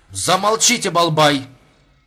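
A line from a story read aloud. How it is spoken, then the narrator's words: Barked shout. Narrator (Russian): гаркнула Сарт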